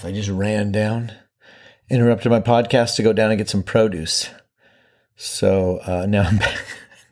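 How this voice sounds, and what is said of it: Slightly out of breath speech. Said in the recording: “I'm a little bit out of breath.”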